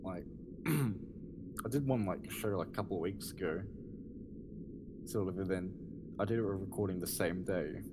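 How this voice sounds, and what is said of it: Strained, hoarse voice. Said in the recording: “losing my voice half the time. ... Which I'm sort of doing right now”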